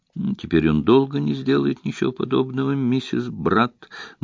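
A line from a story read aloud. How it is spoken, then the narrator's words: Grim assurance. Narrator (Russian): мрачно заверил инспектор Воин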